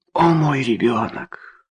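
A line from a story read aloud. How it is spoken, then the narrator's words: Whispered. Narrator (Russian): сказала Трейси шепотом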